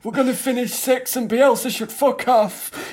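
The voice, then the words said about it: Leeds fan impression, Johnny Vegas-like. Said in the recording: “my Leeds fan impression ... Sounds quite a lot like Johnny Vegas, weirdly.”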